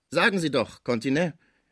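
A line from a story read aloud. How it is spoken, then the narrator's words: Doctor calling out. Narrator (German): rief der Doktor den Küster an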